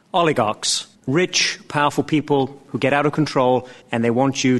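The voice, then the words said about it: British accent. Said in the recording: “has a great British accent”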